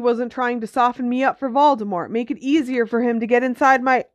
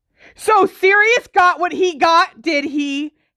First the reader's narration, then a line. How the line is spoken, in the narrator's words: Harry yelled